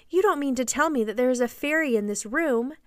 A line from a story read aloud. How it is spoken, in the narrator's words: she cried